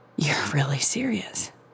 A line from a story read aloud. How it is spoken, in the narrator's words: she whispered